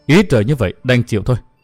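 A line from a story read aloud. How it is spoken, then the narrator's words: Resigned sigh. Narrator (Vietnamese): Thiên nữ Trần Kim Tiếu thở dài nói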